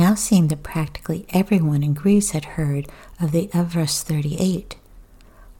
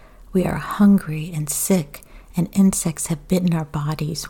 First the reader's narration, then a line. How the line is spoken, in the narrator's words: one pleaded